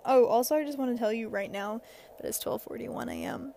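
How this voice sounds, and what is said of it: Raspy late-night voice. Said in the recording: “my voice is so raspy”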